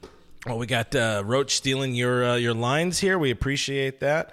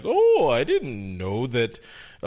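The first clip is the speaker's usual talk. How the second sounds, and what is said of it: Imitates another person's voice. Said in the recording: “That's really good impersonation.”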